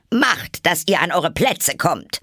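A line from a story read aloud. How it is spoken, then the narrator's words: Thundering royal command. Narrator (German): die Königin donnerte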